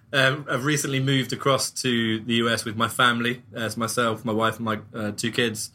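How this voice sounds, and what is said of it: English accent. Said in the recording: “I, in case you didn't realize, am English, my accent.”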